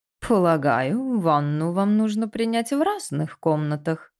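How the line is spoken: Mocking question. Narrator (Russian): насмешливо спросил он, вторя словам Пенни

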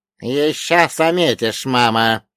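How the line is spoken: Hissing reply. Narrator (Russian): прошипел ей в ответ лихорук

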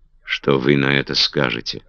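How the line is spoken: Icy voice. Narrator (Russian): обратилась Маргарет к Дагвилару все тем же ледяным голосом

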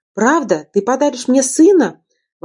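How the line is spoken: Exclamation. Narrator (Russian): воскликнул

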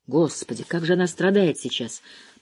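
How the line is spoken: Muttering. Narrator (Russian): пробормотал он

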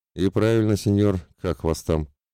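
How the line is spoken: Pleased chuckle. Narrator (Russian): довольно хохотнул блондин

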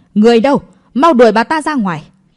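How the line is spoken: Furious, loud. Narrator (Vietnamese): Cố Vĩ Y vô cùng tức giận, lớn tiếng nói

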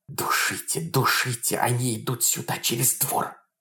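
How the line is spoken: Whispers all around. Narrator (Russian): шептали со всех сторон

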